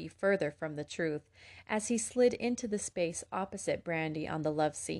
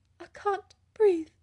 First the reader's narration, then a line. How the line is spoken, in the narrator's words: Elizabeth wheezed